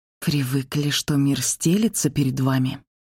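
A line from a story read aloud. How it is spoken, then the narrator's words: Quiet venomous hiss. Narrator (Russian): Прошипела так тихо, чтобы слышал только он, вкладывая в каждое слово весь яд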